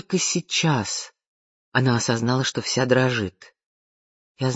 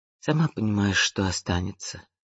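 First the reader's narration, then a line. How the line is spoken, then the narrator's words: Tired. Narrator (Russian): устало проговорила Вианна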